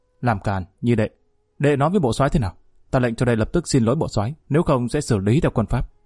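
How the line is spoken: Sudden shout. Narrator (Vietnamese): Hà Quán đột nhiên quát

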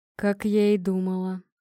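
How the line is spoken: Grumbling. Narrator (Russian): проворчала она

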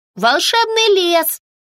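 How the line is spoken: Children shouting in unison. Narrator (Russian): закричали дружно дети

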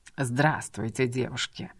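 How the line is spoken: Low growling voice. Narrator (Russian): раздается в тишине его низкий с рычащими нотками голос

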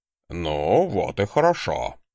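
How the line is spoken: Grunting. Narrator (Russian): хмыкнул Кром

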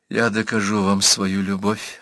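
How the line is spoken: Very quiet. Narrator (Russian): тихо-тихо сказал секретарь

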